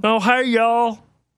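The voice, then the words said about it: Imitates another person's voice. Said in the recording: “that's a pretty good impression. ... A little you need some more deepness to that.”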